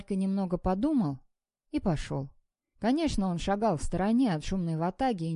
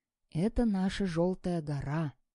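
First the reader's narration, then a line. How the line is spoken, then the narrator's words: Confiding whisper, small quiet boy. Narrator (Russian): доверительно прошептал Вальке маленький тихий Павлик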